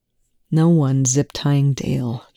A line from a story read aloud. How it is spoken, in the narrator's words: Telford sighed